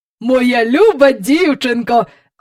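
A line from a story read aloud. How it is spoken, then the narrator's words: Proud exclamation. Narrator (Ukrainian): вигукнув містер Перук, з гордістю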